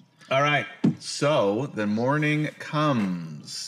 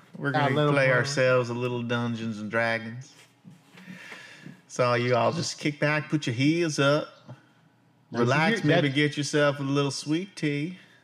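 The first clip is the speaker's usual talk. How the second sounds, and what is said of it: Put-on Southern Texan accent. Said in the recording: “You got a little more lilt going on ... that's a Southern accent ... you're more of a Texan accent ... It's more of a Western accent.”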